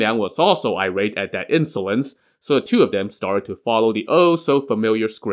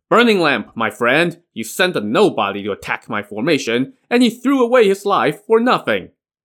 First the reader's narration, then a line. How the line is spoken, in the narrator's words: Sun Liang shouted